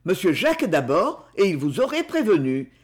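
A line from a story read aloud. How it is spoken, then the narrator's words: Strange retort. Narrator (French): riposta Bill d'un ton étrange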